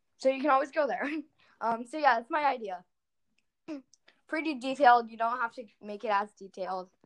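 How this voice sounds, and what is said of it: Strained, fading voice. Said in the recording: “I'm losing my voice from talking so much on this podcast.”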